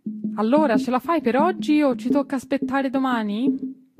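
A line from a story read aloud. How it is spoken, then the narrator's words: Shouted from afar. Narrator (Italian): gli gridò da lontano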